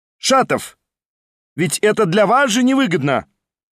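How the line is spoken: Mysterious shout after someone. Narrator (Russian): загадочно крикнул ему вслед Верховенский

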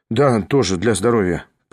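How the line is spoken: Dry mutter. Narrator (Russian): пробормотал он сухо

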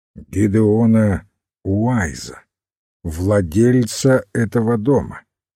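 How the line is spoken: Firmer voice. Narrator (Russian): уже более твердым голосом ответил Хорн

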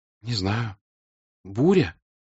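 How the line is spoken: Timid, hesitant. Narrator (Russian): сказала она робко, боясь ошибиться

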